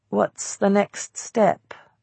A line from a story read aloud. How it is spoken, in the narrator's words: I asked weakly